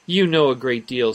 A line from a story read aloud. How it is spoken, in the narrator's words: said she